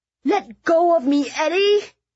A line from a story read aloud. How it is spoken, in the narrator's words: Fiona shrieked